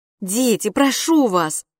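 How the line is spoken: Pleading. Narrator (Russian): взмолилась Битси

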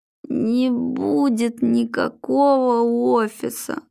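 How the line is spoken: Groaning. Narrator (Russian): застонал Глеб

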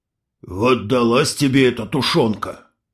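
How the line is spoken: Old man grumbling. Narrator (Russian): пробурчал старик

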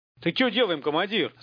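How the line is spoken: Alarmed yell. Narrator (Russian): заорал, увидев головы первых зомби

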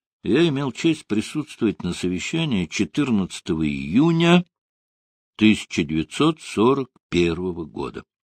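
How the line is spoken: Quiet. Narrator (Russian): начал тихо Буш

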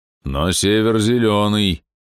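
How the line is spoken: Low booming drone. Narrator (Russian): прогудел рыцарь

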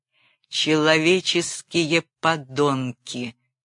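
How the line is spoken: Slow. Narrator (Russian): сказал я медленно

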